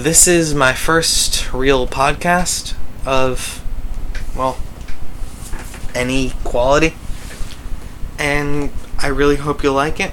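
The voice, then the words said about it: Voice sounds unwell. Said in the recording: “my voice isn't feeling too well today”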